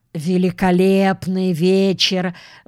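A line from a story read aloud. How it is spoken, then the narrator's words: Deep booming voice. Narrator (Russian): басил он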